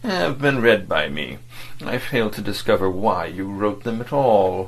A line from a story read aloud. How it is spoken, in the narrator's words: State Councillor Wormut began in his gentle and dispassionate tone